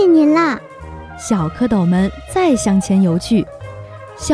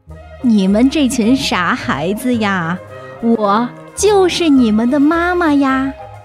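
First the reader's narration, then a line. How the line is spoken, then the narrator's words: Laughing reply. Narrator (Chinese): 青蛙妈妈笑着回答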